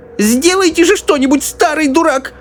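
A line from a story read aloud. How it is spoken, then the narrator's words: Shrill old woman shriek. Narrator (Russian): взвизгнула бабушка Джорджина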